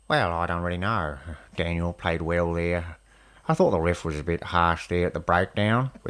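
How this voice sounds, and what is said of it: Put-on New Zealand accent, slipping Australian. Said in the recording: “my Kiwi accent is not great. It slips too much into Australian, even though I can hear a difference between the two. I can do a reasonable Graham Henry, former All Blacks coach ... it's not a great impression.”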